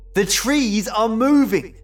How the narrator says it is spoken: I shouted

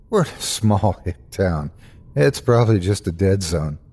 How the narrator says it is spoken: I faked a laugh and replied

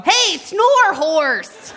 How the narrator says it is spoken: I wanted to yell

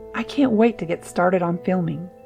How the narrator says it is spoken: she said, her voice filled with enthusiasm

